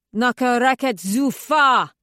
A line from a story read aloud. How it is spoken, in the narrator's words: He bellows